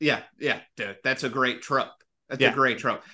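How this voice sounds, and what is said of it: Usual voice. Nothing is said of it.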